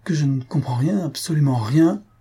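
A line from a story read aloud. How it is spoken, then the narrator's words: Exclaimed. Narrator (French): s'écria Sylvius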